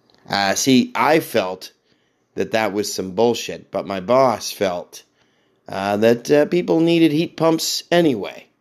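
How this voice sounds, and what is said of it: Slightly hoarse voice. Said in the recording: “I sound a little hoarse, ... because I've been working in the rain.”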